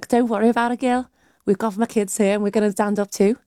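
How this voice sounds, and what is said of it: Good put-on Liverpool accent. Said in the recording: “that was a very good Liverpool accent.”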